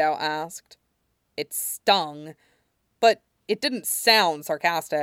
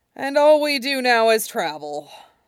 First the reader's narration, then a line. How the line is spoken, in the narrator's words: Sokka groaned